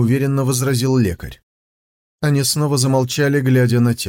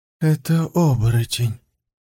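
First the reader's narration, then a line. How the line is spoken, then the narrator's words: Muffled hollow voice. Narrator (Russian): глухо сказал пристав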